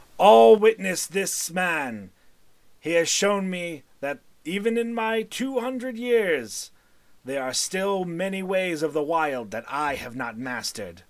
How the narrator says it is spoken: his voice booms, and he says

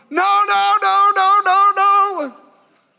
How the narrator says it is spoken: I started yelling

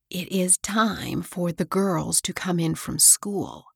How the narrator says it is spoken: she whispered to Mabel

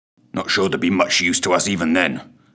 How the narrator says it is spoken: snarled the man

